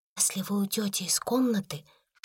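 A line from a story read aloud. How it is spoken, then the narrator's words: Whisper. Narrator (Russian): шепнула Сара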